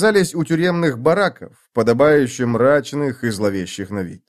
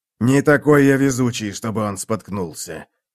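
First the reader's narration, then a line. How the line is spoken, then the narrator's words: Growl. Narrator (Russian): прорычал Мураш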